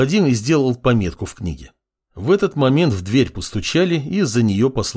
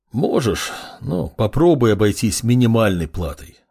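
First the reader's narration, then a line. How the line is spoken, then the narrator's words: Sighing. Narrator (Russian): вздохнул калека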